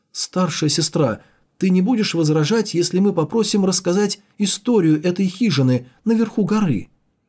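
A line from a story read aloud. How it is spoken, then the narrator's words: Timid question, student. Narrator (Russian): Похожий на бамбуковую жертву студент робко спросил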